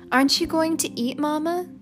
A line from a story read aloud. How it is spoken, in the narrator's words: asked Neely